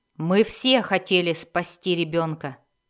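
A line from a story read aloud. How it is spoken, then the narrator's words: Sharp. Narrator (Russian): резко сказал Хатчнет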